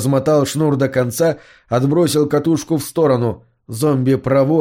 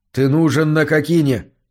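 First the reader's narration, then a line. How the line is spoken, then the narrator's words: Hurried reply. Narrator (Russian): торопливо ответил ему Мур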